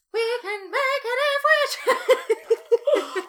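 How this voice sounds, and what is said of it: Sung in a falsetto. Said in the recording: “Your little falsetto.”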